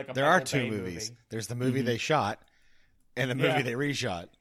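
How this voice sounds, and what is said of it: Usual voice. Nothing is said of it.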